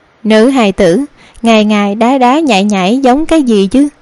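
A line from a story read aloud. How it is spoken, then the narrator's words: Smiling teasing remark. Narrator (Vietnamese): mỉm cười nói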